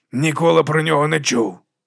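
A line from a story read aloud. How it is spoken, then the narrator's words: Hoarse reply. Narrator (Ukrainian): відповів хрипкий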